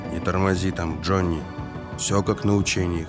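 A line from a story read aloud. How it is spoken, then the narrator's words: Whispered. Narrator (Russian): шепнул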